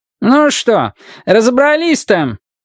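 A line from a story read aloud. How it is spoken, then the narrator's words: Grumpy shout. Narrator (Russian): сварливо выкрикнул дизайнер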